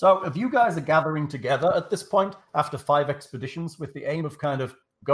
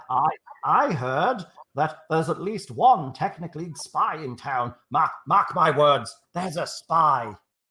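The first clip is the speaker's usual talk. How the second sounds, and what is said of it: Character voice with an accent. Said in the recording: “That will be the accent Leah will be heading for when she plays Bully Gup”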